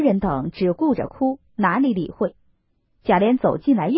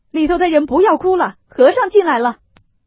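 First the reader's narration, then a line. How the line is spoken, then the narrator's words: Anxious frantic shouting. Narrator (Chinese): 贾琏急得一面走一面乱嚷道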